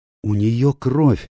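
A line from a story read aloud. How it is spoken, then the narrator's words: Exclaiming. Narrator (Russian): воскликнула Рэйчел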